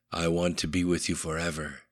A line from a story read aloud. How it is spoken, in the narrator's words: whispered